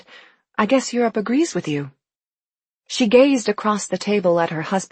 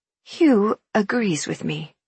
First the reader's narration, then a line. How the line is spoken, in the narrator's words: she said gently